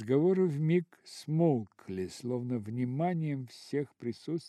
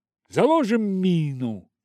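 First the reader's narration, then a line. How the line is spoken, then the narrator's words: Shouted. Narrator (Russian): он крикнул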